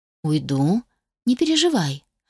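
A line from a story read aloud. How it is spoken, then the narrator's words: Calm, even promise. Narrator (Russian): пообещала я совершенно спокойным и ровным тоном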